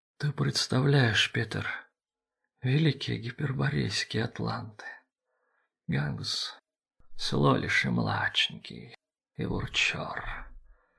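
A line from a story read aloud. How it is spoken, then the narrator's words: Strange, self-surprised voice. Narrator (Russian): говорил Арманд странным голосом, будто удивляясь тому, что сам говорит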